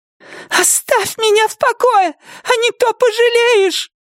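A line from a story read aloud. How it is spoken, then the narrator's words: Shrill trembling shout. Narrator (Russian): визгливо выкрикнула она своим тонким дрожащим голосом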